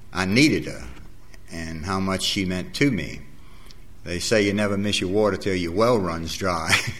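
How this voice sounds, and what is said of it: New Orleans accent, dropped R's. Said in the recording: “as far as my dialect goes, you probably haven't understood about 40% of what I said ... New Orleans ... We don't have any R's at all in our vocabulary ... a combination, I guess, between Spanish and French”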